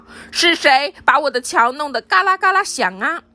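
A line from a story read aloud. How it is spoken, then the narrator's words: Monster's loud roar. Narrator (Chinese): 大妖怪大声吼道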